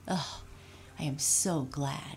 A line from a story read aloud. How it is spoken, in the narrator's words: Raggedy Andy said with a sigh of relief